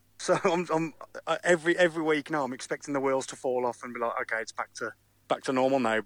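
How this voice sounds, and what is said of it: British accent. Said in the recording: “with your accent? Do you support Wolves, by the way, in the UK?”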